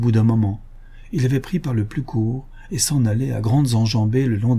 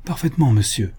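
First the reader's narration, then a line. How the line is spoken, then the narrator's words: Exclaimed. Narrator (French): s'écria Pierre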